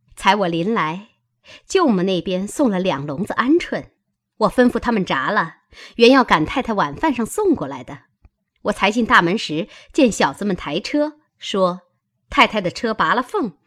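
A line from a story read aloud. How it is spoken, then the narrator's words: Sly sinister laugh. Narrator (Chinese): 想必阴笑道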